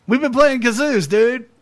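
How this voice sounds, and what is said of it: Impression of a friend's voice. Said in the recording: “pretty good Shane Ellis impression”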